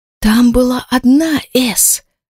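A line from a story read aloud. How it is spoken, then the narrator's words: Whispered in the ear. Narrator (Russian): уточняет Элен шепотом мне на ухо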